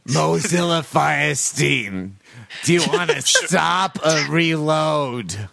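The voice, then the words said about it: Harvey Fierstein impression. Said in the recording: “Firestein browsers that just do everything in an accent ... Harvey Firestein”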